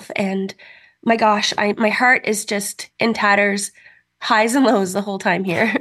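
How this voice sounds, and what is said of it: Audibly emotional voice. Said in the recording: “you can hear, I'm sorry, I get a little emotional”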